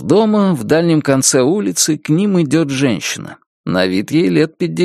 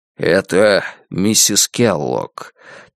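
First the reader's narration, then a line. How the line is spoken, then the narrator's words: Quiet explanation. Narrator (Russian): тихо поясняет Джамал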